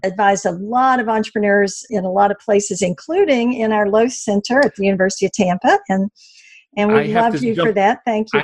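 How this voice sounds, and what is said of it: Slight Southern American accent. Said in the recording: “You got a little Southern thing in common too ... you can hear that in my accent a little bit ... I have a bit of that Southern accent, Southern style”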